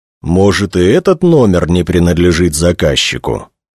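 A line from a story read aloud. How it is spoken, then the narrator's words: Plain question. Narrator (Russian): спросил полковник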